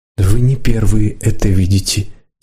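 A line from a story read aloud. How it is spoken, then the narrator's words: Quiet. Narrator (Russian): тихо сказала Лидка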